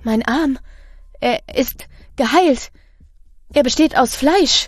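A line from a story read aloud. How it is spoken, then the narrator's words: Stammered. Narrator (German): stammelt sie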